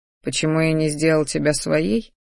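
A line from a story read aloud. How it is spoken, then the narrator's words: Soft velvety slightly husky voice. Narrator (Russian): послышался тихий бархатистый голос с легкой хрипотцой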